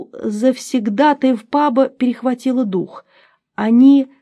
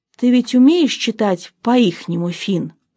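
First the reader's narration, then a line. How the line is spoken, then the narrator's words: Whisper. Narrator (Russian): прошептал Дун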